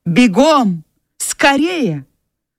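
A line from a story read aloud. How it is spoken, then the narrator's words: Shouting after someone. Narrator (Russian): Скарлетт крикнула вслед Присси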